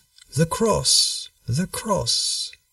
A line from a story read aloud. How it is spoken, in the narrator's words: he roused himself and said in a feeble voice